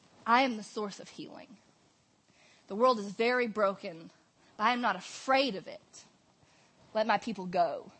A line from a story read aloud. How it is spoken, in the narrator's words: with the like low growl of God in his belly, he like ... says